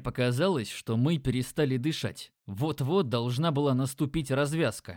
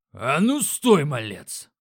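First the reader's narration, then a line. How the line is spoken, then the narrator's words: Booming orc voice. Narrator (Russian): прогремел орк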